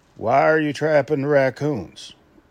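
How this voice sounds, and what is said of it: Put-on Southern US accent. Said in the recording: “Yes, that was my southern accent.”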